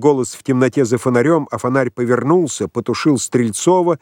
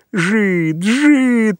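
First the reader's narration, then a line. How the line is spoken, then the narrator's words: Gleeful grumbling. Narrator (Russian): радостно пробурчал ураган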